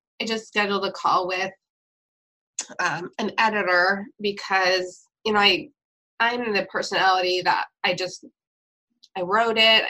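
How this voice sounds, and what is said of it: Hoarse, recovering voice. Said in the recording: “my voice is still coming back from my coughing”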